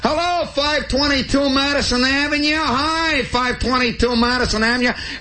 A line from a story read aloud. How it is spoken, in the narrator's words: jumps up and hollers